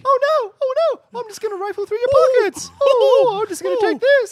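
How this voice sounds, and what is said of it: Mickey Mouse cartoon voice. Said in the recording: “good Mickey Mouse impersonations ... it's a real easy impersonation”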